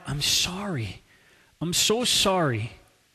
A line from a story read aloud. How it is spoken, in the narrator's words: stunned and uncertain, he cried out